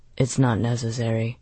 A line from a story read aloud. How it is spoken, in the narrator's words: Holston said quietly